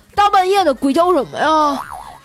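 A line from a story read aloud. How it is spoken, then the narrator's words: Yelling. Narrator (Chinese): 冲她大吼道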